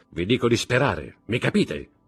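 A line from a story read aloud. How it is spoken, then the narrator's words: Shouting. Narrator (Italian): gridò Montecristo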